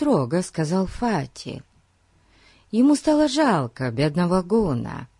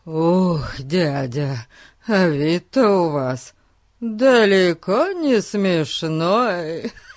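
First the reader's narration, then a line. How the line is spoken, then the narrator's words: Sudden, then laughing fit. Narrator (Russian): Вдруг сказал Эрн и закатился долгим приступом хохота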